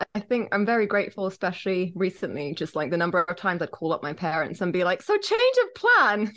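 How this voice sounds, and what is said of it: English accent. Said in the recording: “Everyone listening can notice the English accent”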